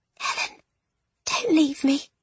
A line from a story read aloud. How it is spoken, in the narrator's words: she whispered